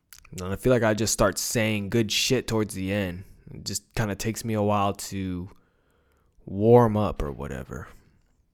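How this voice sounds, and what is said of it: Exhausted, tired-sounding voice. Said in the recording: “I'm sure you can hear it in my voice. I can't even finish my fucking sentence, dude. Just exhausted.”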